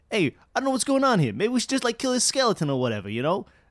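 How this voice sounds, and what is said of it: New York kid character voice. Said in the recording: “The New Yorkie kid ... That's my actual character voice in my campaign ... I love his accent.”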